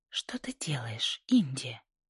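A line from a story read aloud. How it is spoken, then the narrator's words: Whisper. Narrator (Russian): прошептала Джинни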